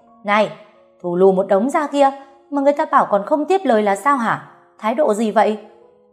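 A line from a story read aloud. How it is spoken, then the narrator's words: Breathless furious yelling. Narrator (Vietnamese): Tôi cố gắng thở mạnh, rồi hét tiếp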